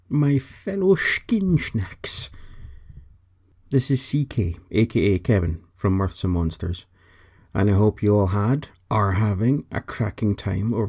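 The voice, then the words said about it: Striking accent. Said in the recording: “the most amazing fucking accent ever”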